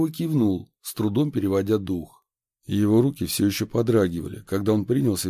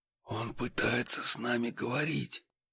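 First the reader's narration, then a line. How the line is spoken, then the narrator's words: Whispered. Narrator (Russian): прошептал я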